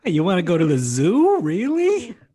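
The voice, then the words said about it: Put-on Jewish accent impression. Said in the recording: “That's my Jew impression. I can't do it.”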